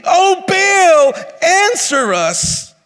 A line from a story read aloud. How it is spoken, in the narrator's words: called in the name of Baal from morning until noon, shouting